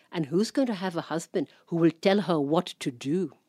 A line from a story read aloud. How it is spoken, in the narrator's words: hissing like an angry cobra